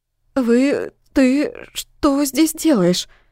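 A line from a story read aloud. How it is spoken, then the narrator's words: Stammering. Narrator (Russian): Заикаясь, выговариваю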